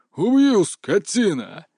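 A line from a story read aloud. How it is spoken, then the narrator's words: Frantic roar. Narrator (Russian): Истошно взревел все тот же голос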